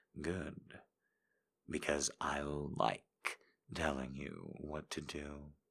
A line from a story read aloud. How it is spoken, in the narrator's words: whispered back